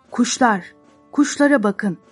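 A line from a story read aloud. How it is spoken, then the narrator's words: Shouting. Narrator (Turkish): diye bağırdı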